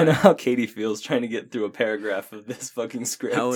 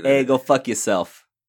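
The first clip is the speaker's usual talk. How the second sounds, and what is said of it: Put-on Boston accent, sounds New Jersey. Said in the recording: “I can do a Boston accent ... That's my Boston accent ... That sounds more New Jersey”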